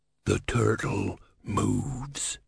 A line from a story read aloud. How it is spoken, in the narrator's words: he hissed